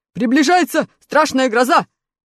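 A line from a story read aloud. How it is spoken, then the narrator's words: Shouting. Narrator (Russian): закричал железный дровосек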